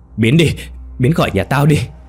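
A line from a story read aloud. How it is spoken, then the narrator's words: Sudden shout. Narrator (Vietnamese): Công Huy đột ngột hét lên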